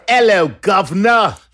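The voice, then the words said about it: Bad put-on British accent. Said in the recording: “Worst ever. ... I don't think that's the accent we're all jealous of ... Even Dick Van Dyke wouldn't go there.”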